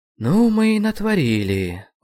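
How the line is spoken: Sigh. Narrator (Russian): вздохнул я

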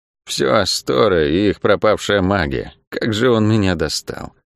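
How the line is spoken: Muttered while walking. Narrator (Russian): пробормотала Лавиани на ходу

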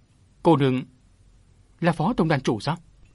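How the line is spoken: Flustered hesitant speech. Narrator (Vietnamese): Gã ta lúng túng ngập ngừng

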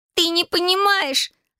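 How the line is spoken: Shouted. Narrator (Russian): закричала она

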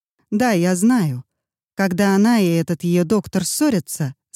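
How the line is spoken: Plain. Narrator (Russian): сказала Беатрис Томпкинс

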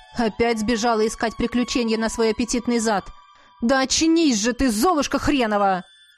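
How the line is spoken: Husband barking. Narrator (Russian): рявкнул муж

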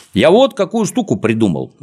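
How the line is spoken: Plain. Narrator (Russian): ответил Незнайка

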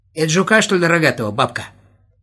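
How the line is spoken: Shout. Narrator (Russian): крикнул Володя

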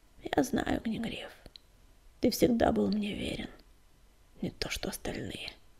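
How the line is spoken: Soft whisper. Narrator (Russian): тихо прошептала она

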